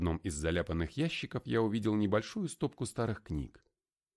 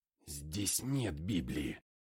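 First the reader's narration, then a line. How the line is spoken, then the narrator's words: Mutter. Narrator (Russian): пробормотал я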